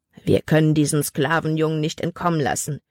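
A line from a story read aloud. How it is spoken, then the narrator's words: Growling. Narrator (German): knurrte ein anderer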